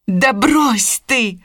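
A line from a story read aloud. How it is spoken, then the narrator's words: Irritated exclamation. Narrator (Russian): воскликнула Скарлетт, которую все это уже начинало раздражать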